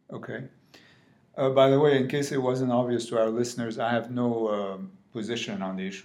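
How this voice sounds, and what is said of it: Non-British accent. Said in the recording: “if it's not completely obvious from my accent, I am not British.”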